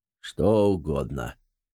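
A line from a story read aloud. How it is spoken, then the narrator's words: Dry question. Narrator (Russian): сухо спросил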